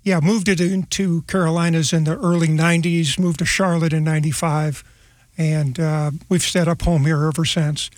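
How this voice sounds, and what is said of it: Slight Midwest American accent. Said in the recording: “a little bit of that Midwest accent.”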